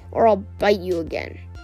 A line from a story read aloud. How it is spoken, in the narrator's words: Tsunami growled